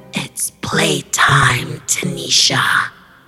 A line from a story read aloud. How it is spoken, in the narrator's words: She croaked